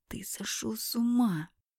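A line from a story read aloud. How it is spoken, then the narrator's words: Hissing. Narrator (Russian): прошипела я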